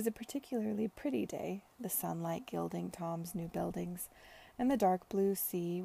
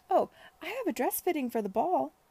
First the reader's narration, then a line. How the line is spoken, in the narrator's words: cried Charlotte, the words tumbling out of her